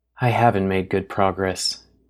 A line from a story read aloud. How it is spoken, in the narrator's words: she whispered